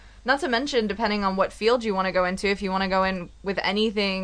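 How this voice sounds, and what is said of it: Usual voice. Nothing is said of it.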